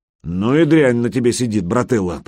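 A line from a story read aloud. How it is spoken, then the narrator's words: Grumbling, face-saving. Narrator (Russian): проворчал Гучко, пытаясь хоть как-то сохранить лицо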